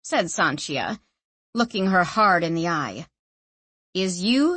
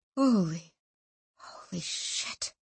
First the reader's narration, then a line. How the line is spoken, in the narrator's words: she whispered